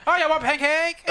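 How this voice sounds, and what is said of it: Put-on Asian accent. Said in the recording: “The guy sounds Asian.”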